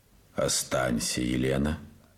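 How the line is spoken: Calm. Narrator (Russian): сказал спокойно Морозов

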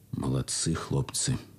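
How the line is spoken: Quiet. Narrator (Russian): тихо сказал парторг полка капитан Тыртычный

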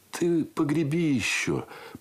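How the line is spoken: Muffled request. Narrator (Russian): попросил он и глухо добавил

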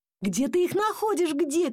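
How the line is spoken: Shouting. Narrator (Russian): кричал папа

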